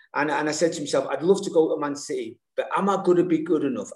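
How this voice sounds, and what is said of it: Mancunian accent with slight Irish. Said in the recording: “this Manc Irish accent ... please tell me there's a bit of Irish in there”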